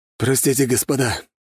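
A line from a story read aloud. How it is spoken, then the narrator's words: Sudden hoarse voice from behind. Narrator (Russian): неожиданно послышался хриплый голос позади нас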